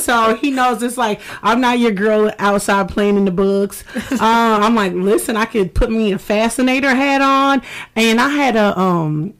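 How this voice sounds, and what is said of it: Southern US accent. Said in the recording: “I'm a Southern Belle at heart. I'm from North Carolina. ... Oh, we hear the accent.”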